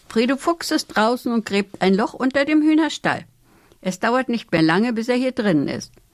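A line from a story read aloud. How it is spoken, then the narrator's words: Agitated call. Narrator (German): schlug wild mit den Flügeln und rief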